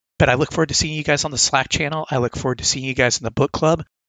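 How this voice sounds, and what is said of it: Hoarse, sore-throat voice. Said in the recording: “I'm sorry if I sound a little bit bad. I have a really sore throat. ... my voice might sound a little bit different. So if I sound weird”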